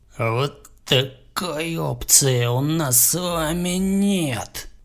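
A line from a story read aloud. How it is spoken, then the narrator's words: Hissing. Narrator (Russian): прошипел Бо Дерек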